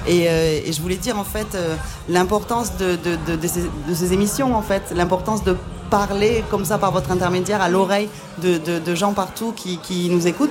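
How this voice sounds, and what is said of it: Slight southwestern French accent. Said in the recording (French): “Moi je viens du sud-ouest, ça s'entend un petit peu à mon accent que j'ai pourtant gardé”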